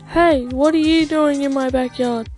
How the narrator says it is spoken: The boy yelled

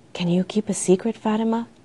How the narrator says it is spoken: whispered

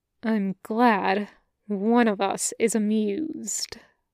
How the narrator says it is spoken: Reaper says through his teeth

